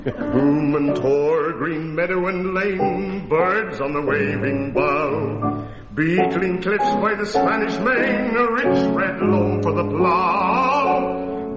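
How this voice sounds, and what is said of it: Sung in a West Country dialect. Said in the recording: “this verse may be sung in the dialect of the county ... Dorset, Somerset ... I'm not very good at this sort of accent”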